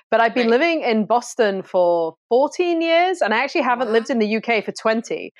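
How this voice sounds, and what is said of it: British accent. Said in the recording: “I'm obviously from the UK originally, as you can tell from the accent.”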